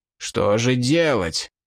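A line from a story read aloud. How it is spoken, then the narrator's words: Growled. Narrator (Russian): прорычал Линк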